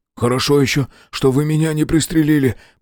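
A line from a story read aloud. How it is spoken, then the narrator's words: Hoarse. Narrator (Russian): прохрипел он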